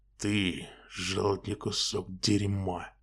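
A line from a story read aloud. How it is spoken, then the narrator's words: Low growl. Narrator (Russian): негромко прорычал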